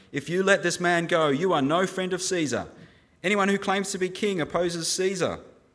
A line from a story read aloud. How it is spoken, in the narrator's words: the Jewish leaders kept shouting